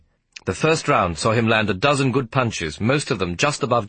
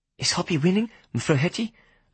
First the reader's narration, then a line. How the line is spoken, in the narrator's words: asked anxiously